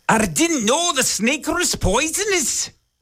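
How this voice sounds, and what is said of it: Exaggerated put-on Scottish accent. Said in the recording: “that was an offensive Scottish accent.”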